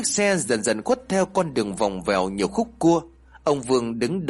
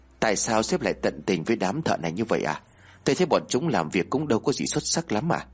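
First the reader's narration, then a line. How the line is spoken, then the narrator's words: Soft question. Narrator (Vietnamese): Tay quản lý khẽ hỏi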